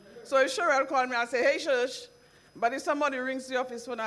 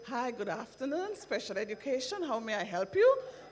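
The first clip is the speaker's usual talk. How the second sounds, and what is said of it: Put-on formal phone-answering voice. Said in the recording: “put on an extra voice, an extra accent ... you know when you're answering your work phone”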